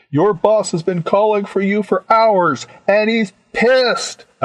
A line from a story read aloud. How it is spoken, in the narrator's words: I yelled